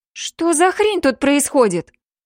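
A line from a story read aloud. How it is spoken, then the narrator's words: Exclaimed from a doorway. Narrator (Russian): Воскликнула Йосика из дверного проема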